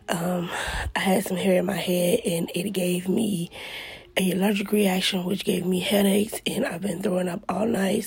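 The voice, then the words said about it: Hoarse voice. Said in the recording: “Excuse my voice. I'm a little hoarse. ... so just excuse the voice”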